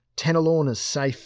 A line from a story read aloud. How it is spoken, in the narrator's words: shouted